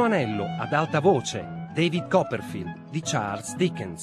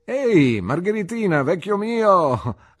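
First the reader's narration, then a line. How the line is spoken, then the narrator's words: Laughing. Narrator (Italian): rise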